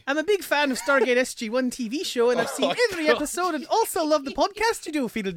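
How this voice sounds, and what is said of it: Put-on Irish accent, sounds Scottish. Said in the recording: “That is Mrs. Doubtfire. ... You can't read it in an Irish accent.”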